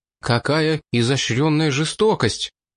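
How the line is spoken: Forced out with difficulty. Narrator (Russian): с трудом выдавил Стэноул

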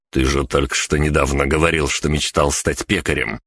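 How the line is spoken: Snorting smirk. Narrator (Russian): хмыкнул я

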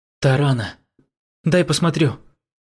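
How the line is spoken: Agitated. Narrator (Russian): Увидев темное пятно, довольно быстро растекающееся по одежде демона, принц взволнованно произнес

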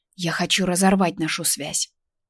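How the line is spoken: Whisper. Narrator (Russian): прошептала

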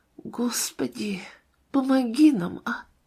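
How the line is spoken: Whisper. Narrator (Russian): шептала

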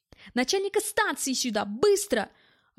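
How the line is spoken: Yelling. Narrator (Russian): орал

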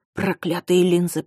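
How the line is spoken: Hissing through teeth. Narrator (Russian): прошипел он сквозь зубы

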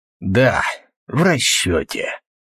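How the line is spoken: Flat, hoarse voice. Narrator (Russian): каким-то севшим бесцветным голосом сказал тот

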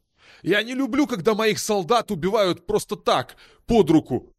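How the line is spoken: Angry shout. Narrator (Russian): крикнул Кандар зло

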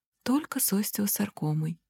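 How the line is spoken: Calm confirmation. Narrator (Russian): спокойно подтверждаю

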